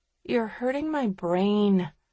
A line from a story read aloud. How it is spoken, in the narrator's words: mumbles Sterling